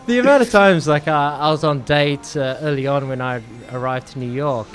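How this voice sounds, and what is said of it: Australian accent. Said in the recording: “your accent ... Australian accent ... your accent is so cute”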